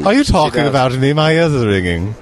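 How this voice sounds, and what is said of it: Imitates another person's voice. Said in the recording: “my Prince Charles imitation.”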